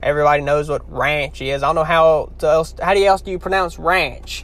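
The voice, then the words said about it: Louisiana Southern accent. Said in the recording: “Louisiana kind of is a different country ... they just have a hard time understanding my accent”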